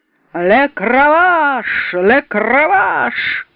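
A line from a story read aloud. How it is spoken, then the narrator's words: Drunken repetition. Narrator (Russian): повторял пьяным голосом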